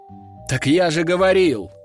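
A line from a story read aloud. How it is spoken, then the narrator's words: Exclaimed. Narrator (Russian): воскликнул граф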